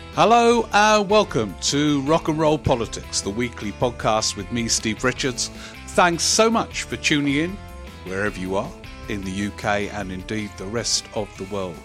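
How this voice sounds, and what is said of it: Silly put-on voice. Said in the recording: “I'm saying that in a silly voice because I say the same words each week, so I might as well vary the voice”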